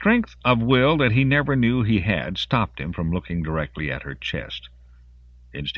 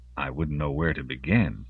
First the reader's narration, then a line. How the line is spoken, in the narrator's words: he said softly